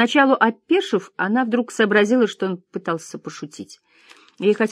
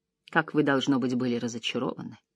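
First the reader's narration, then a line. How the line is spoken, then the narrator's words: Dry. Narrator (Russian): сухо сказала Клэр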